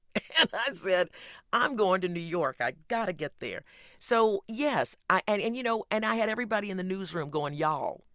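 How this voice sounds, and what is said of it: Southern American accent. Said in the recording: “I never lost my Southern accent.”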